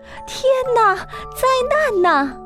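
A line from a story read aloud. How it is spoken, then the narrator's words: Scream. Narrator (Chinese): 一声尖叫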